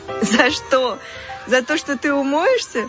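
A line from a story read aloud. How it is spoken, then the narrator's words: Laughing. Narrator (Russian): засмеялась Алиса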